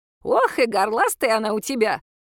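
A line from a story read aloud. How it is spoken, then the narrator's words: Laughing loudly. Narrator (Russian): залилась хохотом Матрёна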